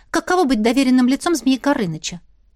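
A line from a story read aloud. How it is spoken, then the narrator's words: Plain. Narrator (Russian): спросила Настя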